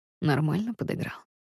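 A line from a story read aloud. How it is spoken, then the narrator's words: Quiet amused question. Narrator (Russian): Рус тихо хмыкает, интересуясь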